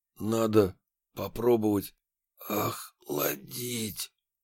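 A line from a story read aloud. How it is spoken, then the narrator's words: Breathless, little hope. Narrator (Russian): Я выдохнул, почти не надеясь, что он меня поймет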